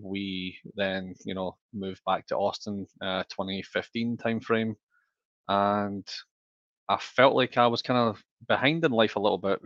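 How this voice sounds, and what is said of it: Scottish accent. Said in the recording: “As you can probably tell from the accent, I'm not from Central Texas. I'm actually originally from Scotland.”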